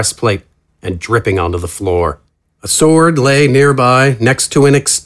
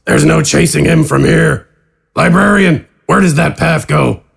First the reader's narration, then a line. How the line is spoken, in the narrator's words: announce